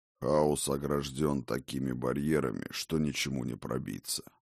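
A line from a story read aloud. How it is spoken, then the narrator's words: Old man's grumble. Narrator (Russian): проворчал старый Хрофт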